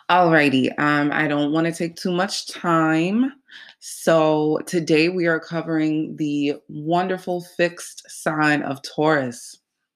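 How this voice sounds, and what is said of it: Nasal, congested voice. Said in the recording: “I sound nasally at all. I wake up congested sometimes, it's just an allergy thing ... if I sound nasally”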